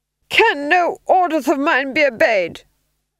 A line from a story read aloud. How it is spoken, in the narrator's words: he screamed